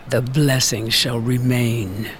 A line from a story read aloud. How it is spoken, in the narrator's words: the sunken mother angrily hiss